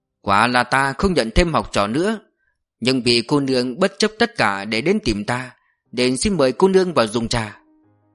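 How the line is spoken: Calm, smiling woman. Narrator (Vietnamese): Mình phụ kia trầm tĩnh, bỗng bà ta mỉm cười bảo

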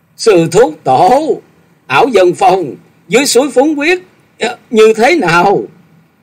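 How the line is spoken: Hurried shout. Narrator (Vietnamese): Chàng vội thét gọi

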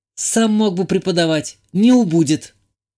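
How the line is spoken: Snapping retort. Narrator (Russian): огрызнулась девушка

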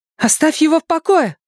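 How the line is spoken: Shouted. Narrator (Russian): закричала Беверли

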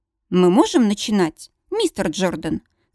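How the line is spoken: Formal question. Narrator (Russian): спрашивает официальным тоном

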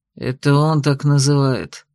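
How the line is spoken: Vexed exhale. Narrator (Russian): с досадой выдохнул Саргинс

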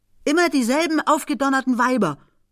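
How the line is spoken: Angry old lady calling. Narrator (German): rief die alte Dame böse

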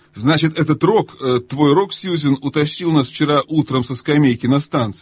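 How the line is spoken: Plain. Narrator (Russian): сказал Питер

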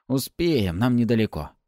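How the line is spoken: Hoarse wheeze. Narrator (Russian): прохрипел тот

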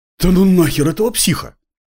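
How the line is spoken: Breathless, breaking into run. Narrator (Russian): Выдохнул один из молчавших до этого, переходя на бег

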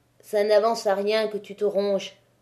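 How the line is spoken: Muffled voice. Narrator (French): dit Maheu d'une voix sourde

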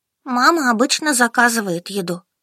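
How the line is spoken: Sighing. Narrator (Russian): вздохнул Денис и сообщил

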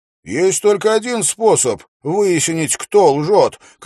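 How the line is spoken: Shout. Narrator (Russian): крикнул Уилл

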